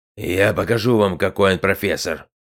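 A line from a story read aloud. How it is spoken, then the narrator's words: Officer growling. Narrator (Russian): Прорычал офицер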